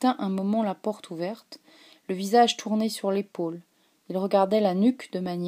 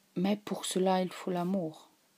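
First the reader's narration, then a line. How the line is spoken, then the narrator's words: Restrained, to himself. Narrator (French): Il dit d'une voix retenue, comme pour lui-même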